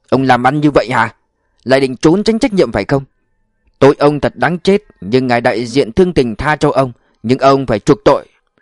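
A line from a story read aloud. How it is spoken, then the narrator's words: Furious manager shouting. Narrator (Vietnamese): người quản lý nổi giận lôi đình, đập bàn quát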